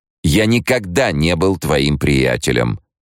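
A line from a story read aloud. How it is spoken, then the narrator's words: Snapping retort. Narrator (Russian): огрызнулся Монео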